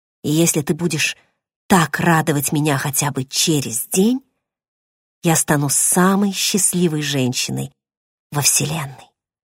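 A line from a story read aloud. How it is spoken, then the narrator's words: Hoarse strained whisper. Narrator (Russian): Хриплым, сорванным от крика голосом, шепнула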